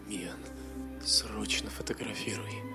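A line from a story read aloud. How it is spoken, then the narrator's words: Trembling order. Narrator (Russian): Дрожащим голосом приказал Ларьен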